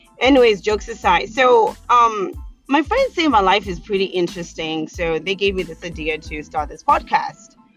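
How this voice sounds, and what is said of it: Zimbabwean accent. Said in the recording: “I'm originally from a small little country in the southern part of Africa called Zimbabwe. So that's where the accent comes from”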